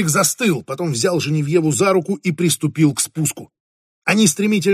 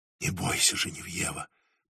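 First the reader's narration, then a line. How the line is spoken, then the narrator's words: Whisper. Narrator (Russian): прошептал Фредерик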